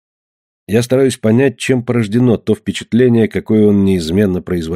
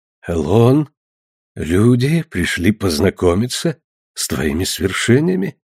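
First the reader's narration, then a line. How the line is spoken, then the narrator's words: Strange voice. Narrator (Russian): сказал Орлан этим странным голосом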